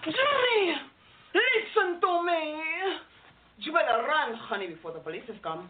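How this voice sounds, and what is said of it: Put-on Spanish accent. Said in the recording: “she has to be very, very Spanish ... Do you do a Spanish accent? Yes, I do. Could you do uh, maybe a size for me with that accent?”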